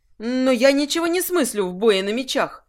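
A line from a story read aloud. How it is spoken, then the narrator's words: Exclaiming. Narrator (Russian): воскликнула Лакриста, на мгновение сбросив маску покорной любовницы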